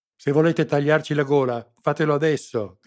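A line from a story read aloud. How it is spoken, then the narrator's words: Spitting angry shout. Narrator (Italian): gridò sputando saliva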